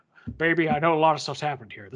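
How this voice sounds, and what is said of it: Poor Elvis-like character voice. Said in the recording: “This is my terrible, almost Elvis impersonation, but I'm”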